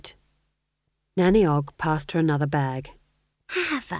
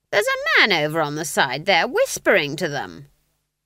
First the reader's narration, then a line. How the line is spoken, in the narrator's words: Granny said, in a piercing voice